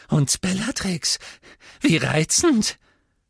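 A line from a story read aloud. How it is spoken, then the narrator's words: Squeaky voice. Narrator (German): sagte er mit quiekender Stimme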